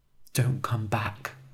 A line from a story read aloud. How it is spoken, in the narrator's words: she whispered